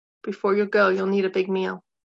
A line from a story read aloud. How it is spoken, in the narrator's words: said evenly